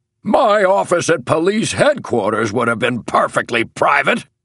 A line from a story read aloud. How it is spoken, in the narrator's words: thundered Major and Superintendent of Police Moore through his white whiskers